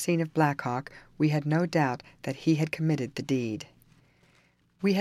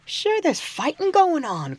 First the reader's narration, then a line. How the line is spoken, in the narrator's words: cried Tim